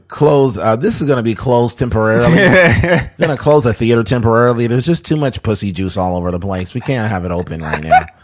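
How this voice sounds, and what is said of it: Nasally teenage theater worker voice. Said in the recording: “do the same voice for every, like... person that owns like a somebody that works in a theater, works at Jack in a Box. It's always some teenager with a real nasally voice.”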